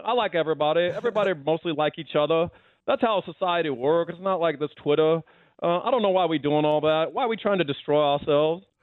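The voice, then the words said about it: Charles Barkley impression. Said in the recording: “your best impression. That was really good. ... Charles Barkley, yeah ... a decent Charles Barkley impression”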